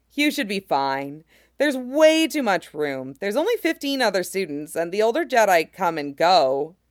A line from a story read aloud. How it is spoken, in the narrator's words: Cal laughed